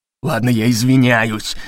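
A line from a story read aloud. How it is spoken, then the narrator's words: Words through gritted teeth. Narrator (Russian): процедил Леви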